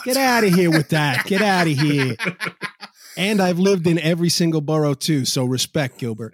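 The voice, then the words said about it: New York accent. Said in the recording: “New York accents ... you definitely got an accent”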